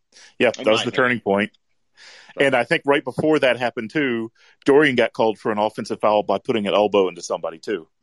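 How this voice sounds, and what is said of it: Booming radio voice. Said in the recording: “got a hell of a radio voice. Really good, like, booming sense.”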